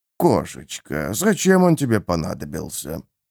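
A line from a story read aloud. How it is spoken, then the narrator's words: Purring. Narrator (Russian): Графиня мурлыкнула пару слов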